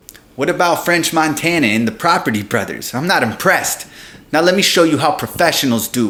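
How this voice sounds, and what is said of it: Usual voice. Nothing is said of it.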